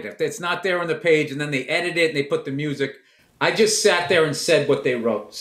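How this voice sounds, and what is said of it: Boston accent. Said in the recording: “why does he have a Boston accent?”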